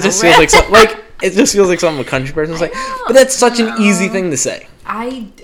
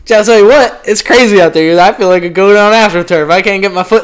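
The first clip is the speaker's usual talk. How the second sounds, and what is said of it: Put-on country accent. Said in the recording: “Why did you go into a country accent?”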